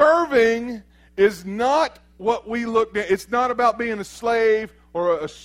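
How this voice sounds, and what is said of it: Usual voice. Nothing is said of it.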